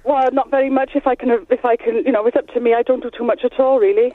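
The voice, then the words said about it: Welsh accent. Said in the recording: “Are you from Wales? ... They've got the accent, haven't you? ... That sounds proper Welsh as well”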